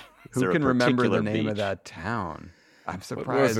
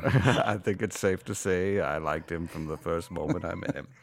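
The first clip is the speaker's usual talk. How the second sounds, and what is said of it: Morgan Freeman impression. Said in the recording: “your Morgan Freeman voice ... I'm imitating your impersonation.”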